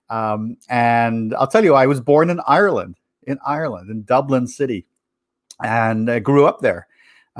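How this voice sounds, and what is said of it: Irish accent blended with American. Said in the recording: “my accent ... there's an American accent there, but is there English or South African in there”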